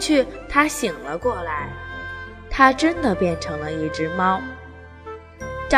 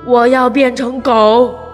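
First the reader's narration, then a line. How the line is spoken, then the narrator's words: Eerie, frightening voice. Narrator (Chinese): 声音阴森恐怖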